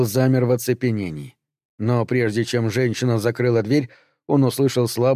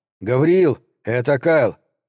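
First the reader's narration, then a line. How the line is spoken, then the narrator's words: Shouted. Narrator (Russian): крикнул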